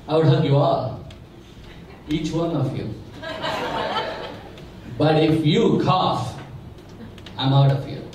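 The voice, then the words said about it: New Jersey accent. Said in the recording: “if you can't tell by my accent, I am from New Jersey.”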